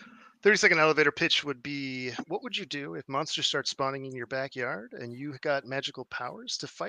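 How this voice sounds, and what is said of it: Usual voice. Nothing is said of it.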